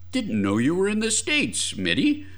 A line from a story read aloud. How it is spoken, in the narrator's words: grumbled Remington